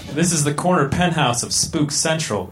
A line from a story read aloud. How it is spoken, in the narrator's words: exclaimed Melissa